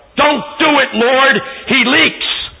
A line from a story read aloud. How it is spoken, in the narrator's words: Some lady in the back yelled